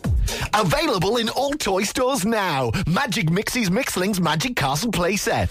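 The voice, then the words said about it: Put-on advertising announcer voice. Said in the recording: “put on the voice”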